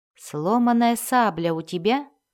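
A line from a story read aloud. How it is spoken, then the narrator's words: Plain. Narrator (Russian): спросила Даф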